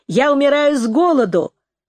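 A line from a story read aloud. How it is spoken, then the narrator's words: Laughing. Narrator (Russian): Нэнси засмеялась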